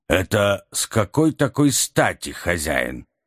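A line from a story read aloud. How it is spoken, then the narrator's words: Grumbling. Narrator (Russian): проворчал Бенджамин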